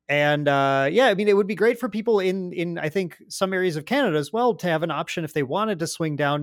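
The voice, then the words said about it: Fargo, North Dakota accent. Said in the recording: “I'm in Fargo, North Dakota, which is the ultimate way to hear my accent. Fargo, North Dakota, if you couldn't tell now.”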